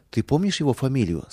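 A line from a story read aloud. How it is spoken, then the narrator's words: Plain. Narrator (Russian): спросил я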